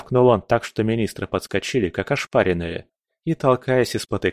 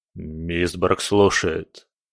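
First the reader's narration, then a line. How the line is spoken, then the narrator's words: Dry-mouthed babble. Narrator (Russian): пролепетал, чувствуя, как пересохло во рту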